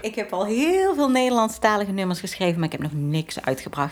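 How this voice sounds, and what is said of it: Eindhoven Dutch accent, soft G. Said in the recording (Dutch): “Gewoon Eindhovens. ... Zachte G. ... mijn accent en Eindhovens accent ... Ik kan helemaal geen harde G praten, want ik praat gewoon met een zachte G.”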